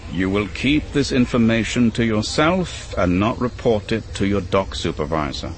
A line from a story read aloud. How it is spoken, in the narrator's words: Vesto said